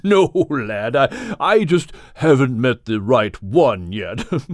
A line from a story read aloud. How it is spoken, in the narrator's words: said Craddock, with a chuckle that caused his body to shake